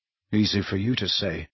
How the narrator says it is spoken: muttered Harry

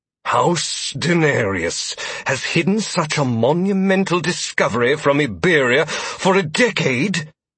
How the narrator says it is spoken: Donovan spat

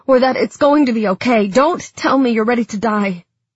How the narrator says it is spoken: said fiercely

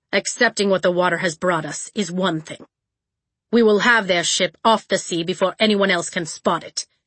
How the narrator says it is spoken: he said

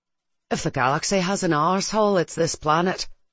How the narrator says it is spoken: Mayreed muttered

